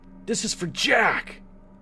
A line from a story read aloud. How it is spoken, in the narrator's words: I screamed